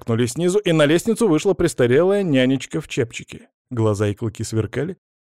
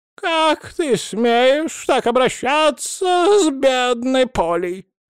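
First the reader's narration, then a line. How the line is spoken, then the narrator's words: Shrieking. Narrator (Russian): завизжала она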